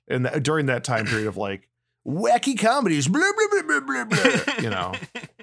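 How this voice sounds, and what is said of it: Imitates another person's voice. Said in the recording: “that was actually a really good Sandler impersonation.”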